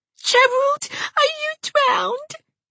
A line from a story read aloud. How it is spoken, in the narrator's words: cried Geraldine